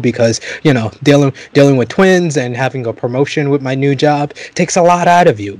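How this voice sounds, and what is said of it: Lower, tired-sounding voice. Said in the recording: “my voice is a little bit lower for this episode than usual... the more melatonine voice”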